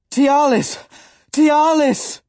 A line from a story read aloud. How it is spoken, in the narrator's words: cried